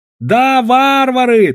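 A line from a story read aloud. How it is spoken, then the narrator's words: Shrill shout. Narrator (Russian): тонко кричал Гао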